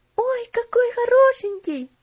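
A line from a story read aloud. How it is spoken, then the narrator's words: Exclaimed. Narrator (Russian): воскликнула Элси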